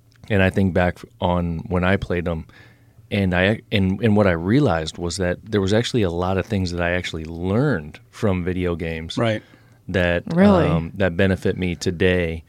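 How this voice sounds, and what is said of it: Hoarse, froggy voice. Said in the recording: “you got a little bit of a cold over there... I've got a little frog in my throat.”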